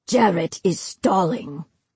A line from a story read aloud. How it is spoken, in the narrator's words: Madelon growled